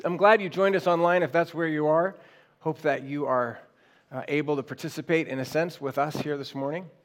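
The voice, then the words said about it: Quiet, soft, recovering voice. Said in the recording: “My voice is slow to return after a little bit of a hard week ... a little quieter sermon. Just a little softer and gentler”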